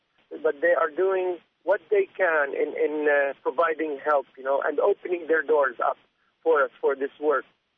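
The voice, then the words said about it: Non-American foreign accent. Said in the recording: “tell by his voice, it's not like an American accent.”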